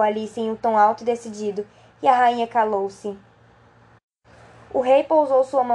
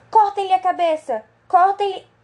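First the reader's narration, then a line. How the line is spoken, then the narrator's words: Furious screaming. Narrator (Portuguese): ficou vermelha de raiva e depois de encará-la por um momento como uma fera selvagem, começou a gritar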